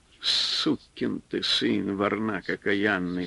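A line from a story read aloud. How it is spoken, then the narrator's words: Quiet cursing. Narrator (Russian): вслух негромко ругался он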